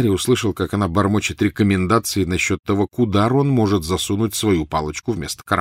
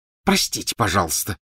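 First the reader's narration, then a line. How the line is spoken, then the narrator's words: Hissing. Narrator (Russian): прошипела Гермиона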